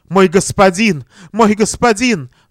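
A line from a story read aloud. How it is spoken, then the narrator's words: Sobbing. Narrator (Russian): Всхлипывала она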